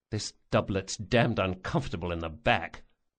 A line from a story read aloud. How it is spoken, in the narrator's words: Locke muttered